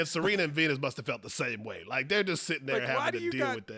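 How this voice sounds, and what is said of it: Usual voice. Nothing is said of it.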